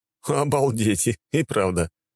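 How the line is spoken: Snort. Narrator (Russian): хмыкнул

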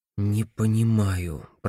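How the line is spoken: Mutter. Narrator (Russian): пробормотал Пулчер

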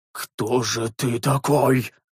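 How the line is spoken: Old priest muttering. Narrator (Russian): пробормотал седоволосый священник

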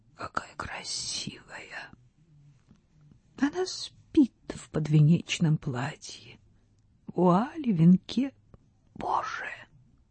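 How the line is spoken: Whisper, woman. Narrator (Russian): прошептала

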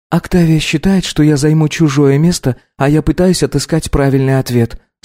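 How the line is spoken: Calm reply. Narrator (Russian): спокойно ответила Анна

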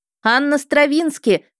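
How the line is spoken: Shouted as loud as possible. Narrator (Russian): крикнула я как можно громче

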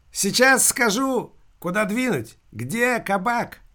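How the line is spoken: Imp's loud shouting. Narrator (Russian): Бес Машка громко кричал собутыльникам

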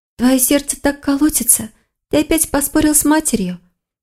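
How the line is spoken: Young woman's soft question. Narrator (Russian): тихо спросила девушка

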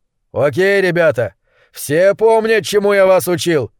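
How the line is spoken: Loud yell. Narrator (Russian): заорал он

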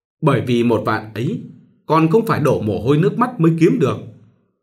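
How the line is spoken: Smiling. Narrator (Vietnamese): Mỉm cười, Minh

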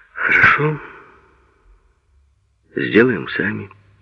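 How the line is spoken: Sad. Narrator (Russian): грустно сказал Сеня

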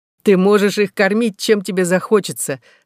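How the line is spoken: Laughing reply. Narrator (Russian): ответил, смеясь, Роланд

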